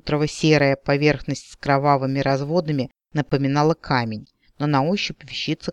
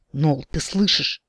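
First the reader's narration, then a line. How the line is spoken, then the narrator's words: Whisper. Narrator (Russian): прошептал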